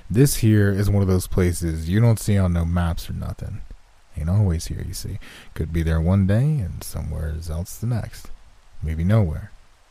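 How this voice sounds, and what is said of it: Strong, almost country accent. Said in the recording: “he said in a strong, almost country accent.”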